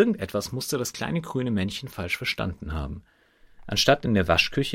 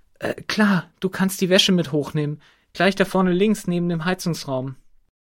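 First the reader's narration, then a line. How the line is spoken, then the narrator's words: Said aloud. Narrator (German): Laut sagte sie nur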